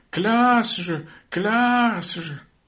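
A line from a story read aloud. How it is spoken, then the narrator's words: Crowd yelling. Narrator (French): Tous hurlaient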